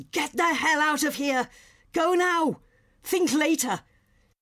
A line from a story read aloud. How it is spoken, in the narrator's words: He yells